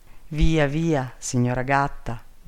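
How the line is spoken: Plain. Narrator (Italian): disse il principe

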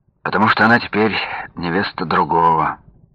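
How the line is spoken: Sad. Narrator (Russian): печально закончил

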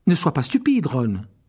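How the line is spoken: Sharp quick retort. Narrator (French): répliqua vivement Hermione

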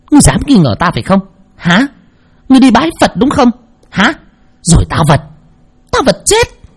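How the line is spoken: Hissing. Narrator (Vietnamese): Cô Thao rít lên

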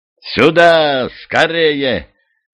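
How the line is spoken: Loud yelling. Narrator (Russian): орал де Шарбрек

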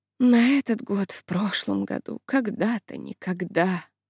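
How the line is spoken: Mumble. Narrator (Russian): бормотнула Айза

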